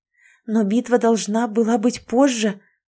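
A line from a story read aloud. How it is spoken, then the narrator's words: Breathless exclamation. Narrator (Russian): выдохнула Кэти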